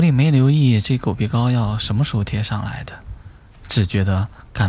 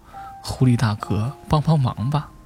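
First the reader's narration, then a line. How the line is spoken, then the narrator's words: Desperate pleading. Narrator (Chinese): 狗……苦苦哀求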